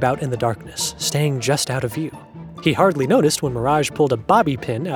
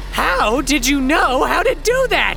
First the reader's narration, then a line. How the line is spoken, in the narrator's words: Zappy shrieked out